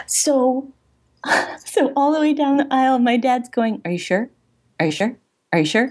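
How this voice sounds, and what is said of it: Speaking very quietly. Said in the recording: “say this really quietly”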